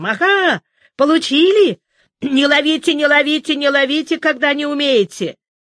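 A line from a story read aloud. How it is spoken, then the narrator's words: Insolent shouting. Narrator (Russian): Ленька кричал нахальным голосом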